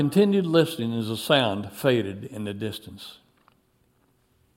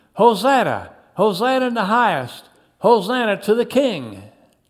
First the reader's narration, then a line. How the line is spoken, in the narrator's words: They continued shouting